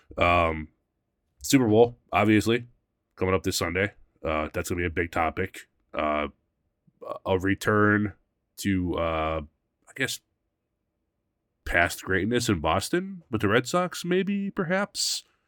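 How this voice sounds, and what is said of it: Congested, hoarse, slightly squeaky voice. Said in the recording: “A little congested today. Losing my voice a little bit. So if I'm a little squeaky or coughing in the mic”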